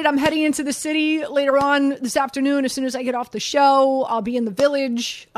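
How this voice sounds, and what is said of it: Excited, very fast speech. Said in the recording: “You sound very excited ... I feel like I'm talking very, very, very fast”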